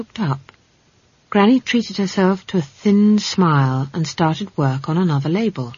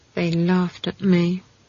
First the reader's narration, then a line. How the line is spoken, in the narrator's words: Esk mumbled